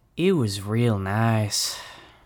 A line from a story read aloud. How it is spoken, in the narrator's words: said Jesse with a sigh